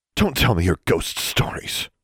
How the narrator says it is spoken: Grimm spat

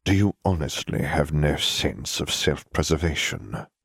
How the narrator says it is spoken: asked coldly with a strange half-grin that had no happiness, only a deranged sort of madness

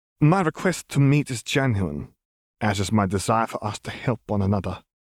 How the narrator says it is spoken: he replied

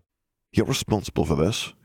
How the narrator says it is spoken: he muttered

